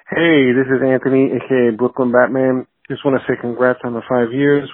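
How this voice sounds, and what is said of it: Distinct regional accent. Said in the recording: “something fun about hearing that accent every once in a while ... people with those accents ... very specific different accents”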